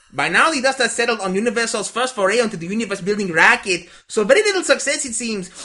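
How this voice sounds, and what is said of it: Fake, exaggerated Mexican accent. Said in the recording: “I'm going to do the entirety of your email in a cod Mexican accent.”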